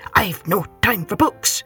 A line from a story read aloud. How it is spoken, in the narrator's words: he grumbled